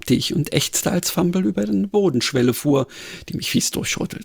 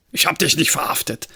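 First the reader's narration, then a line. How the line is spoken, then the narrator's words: Grunted assertion. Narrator (German): behauptete er grunzend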